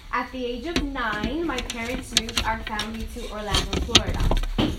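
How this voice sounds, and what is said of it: Slight Brooklyn accent. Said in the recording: “If you hear a little bit of that Brooklyn accent”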